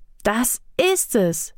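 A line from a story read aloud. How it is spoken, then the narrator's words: Calling out. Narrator (German): rief Otieno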